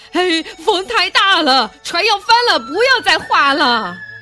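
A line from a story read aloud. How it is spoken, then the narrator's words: Repeated shouting. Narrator (Chinese): 不住的叫喊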